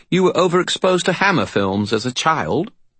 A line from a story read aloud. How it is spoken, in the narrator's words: chirped a cheerful voice